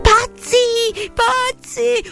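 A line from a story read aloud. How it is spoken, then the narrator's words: Frantic yell. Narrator (Italian): urlò Benjamin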